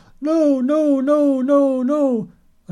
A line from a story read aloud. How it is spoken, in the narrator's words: She would scream